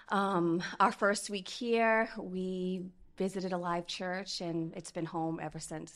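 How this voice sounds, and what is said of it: Massachusetts accent. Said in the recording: “We are originally from Fall River, Massachusetts ... we can tell that by your accent”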